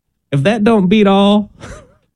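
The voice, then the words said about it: Put-on Southern American accent. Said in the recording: “Why is your voice getting southern sounding? ... you would only say that with a southern accent”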